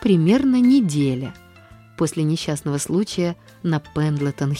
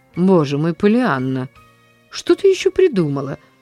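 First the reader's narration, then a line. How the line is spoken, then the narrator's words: Sighing. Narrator (Russian): вздохнула мисс Полли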